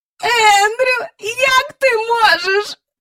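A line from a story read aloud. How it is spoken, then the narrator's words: Moaned. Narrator (Ukrainian): простогнала міс Жайворон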